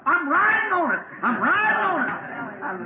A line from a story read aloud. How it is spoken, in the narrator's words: hollering